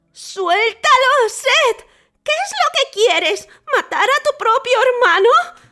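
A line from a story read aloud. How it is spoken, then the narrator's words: Wife's shout. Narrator (Spanish): gritó su esposa Neftis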